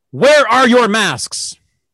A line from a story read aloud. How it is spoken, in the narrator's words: she yelled at the top of her lungs